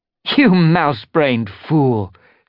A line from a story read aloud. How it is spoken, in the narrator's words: she spat